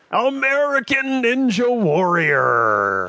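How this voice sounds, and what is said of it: Booming courtside announcer voice. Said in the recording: “sounds just like my, you know, courtside announcer voice”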